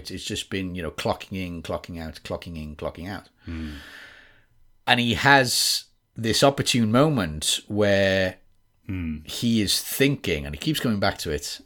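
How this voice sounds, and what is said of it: Welsh accent. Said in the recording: “this is a Wales accent, by the way. ... This is West Wales ... a lot of people think I sound from England ... you sound very Welsh ... So that's a Welsh accent.”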